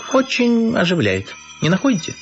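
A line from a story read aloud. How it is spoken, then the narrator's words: Cheerful question. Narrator (Russian): весело спросил Львович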